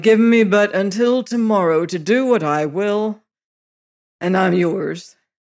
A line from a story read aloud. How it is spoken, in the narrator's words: groans I